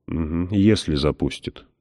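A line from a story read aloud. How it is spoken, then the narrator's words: Gruff mutter. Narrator (Russian): буркнул Селен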